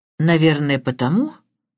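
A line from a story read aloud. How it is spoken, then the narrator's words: Strange tone. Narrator (Russian): странным тоном произнесла мисс Блэклок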